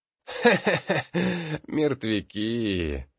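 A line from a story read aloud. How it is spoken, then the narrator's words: Childish old man's cackle. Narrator (Russian): хохотнул старина Баргас, опять разумом провалившись в детство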